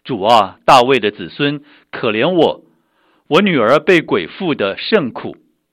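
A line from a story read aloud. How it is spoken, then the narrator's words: Crying out. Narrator (Chinese): 有一个迦南妇人喊着说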